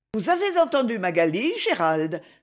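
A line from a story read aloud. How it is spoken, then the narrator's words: Brisk exclamation. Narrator (French): s'écria vivement Lady Isabelle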